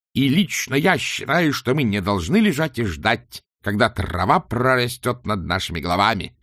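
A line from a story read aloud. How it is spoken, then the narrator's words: Roaring. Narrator (Russian): взревел он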